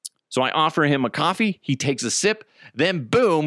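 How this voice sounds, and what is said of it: Usual voice. Nothing is said of it.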